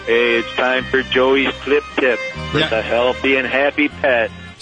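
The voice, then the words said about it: Put-on Italian accent. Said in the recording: “was that your Italian accent?”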